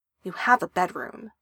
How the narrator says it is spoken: she says

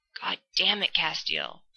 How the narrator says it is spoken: Dean hisses, so loud that their neighbor, who lives 8 miles to the north, can probably hear him

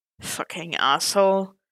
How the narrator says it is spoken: Bucky muttered

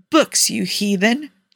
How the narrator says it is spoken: Tony snorted

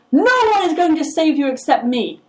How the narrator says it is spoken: the former master shouts over it

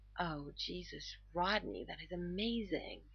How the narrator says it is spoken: John moans

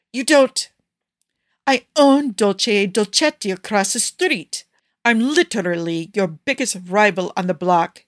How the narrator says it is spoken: he yipped

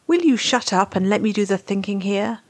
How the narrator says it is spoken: McKay snaps

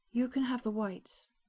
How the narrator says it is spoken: she said evenly

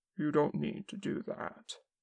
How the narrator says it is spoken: Kim said quietly

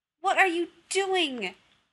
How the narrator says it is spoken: Rodney yelled

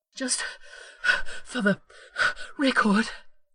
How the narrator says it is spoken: Rodney panted

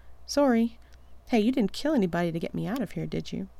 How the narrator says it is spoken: Rodney sighs

